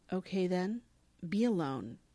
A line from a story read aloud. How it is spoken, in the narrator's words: says evenly